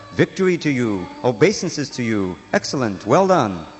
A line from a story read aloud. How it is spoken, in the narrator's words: In the heavens, the demigods, perfect mystics, and great sages cried out